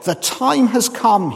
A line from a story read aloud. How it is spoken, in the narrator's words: said